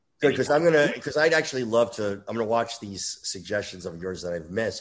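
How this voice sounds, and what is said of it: Hoarse, failing voice from illness. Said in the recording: “my voice is going from fucking COVID ... I feel feverish”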